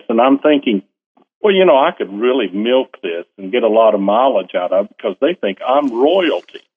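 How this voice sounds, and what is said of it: Southern American accent. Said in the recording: “Listen to my accent. ... I'm from the southern part of the United States.”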